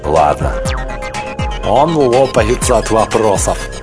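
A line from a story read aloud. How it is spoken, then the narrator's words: Giggling. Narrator (Russian): продолжал хихикая Марк Грейвс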